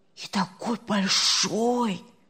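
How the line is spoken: Whispering. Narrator (Russian): зашептали с другой стороны кровати

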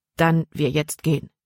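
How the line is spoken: Plain. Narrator (German): sagte Jordan erneut

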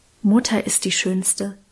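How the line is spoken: Whispered. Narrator (German): Karl flüsterte

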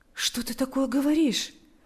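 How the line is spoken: Comforting tone. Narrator (Russian): произнес Павел утешающим тоном

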